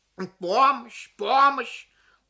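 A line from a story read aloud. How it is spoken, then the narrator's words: Loud, a parent. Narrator (Russian): громко проговорила какая-то родительница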